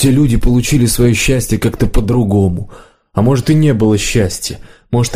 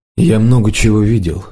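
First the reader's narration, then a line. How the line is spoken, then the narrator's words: Sighing. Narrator (Russian): подорожник вздохнул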